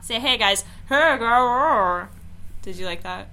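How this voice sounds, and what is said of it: Spooky skeleton character voice. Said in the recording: “It's a great impression of... Skeleton voice.”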